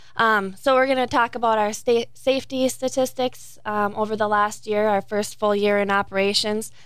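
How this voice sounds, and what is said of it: Michigan Upper Peninsula accent. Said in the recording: “of UPERS. I'm included in that number, if you couldn't tell by my accent.”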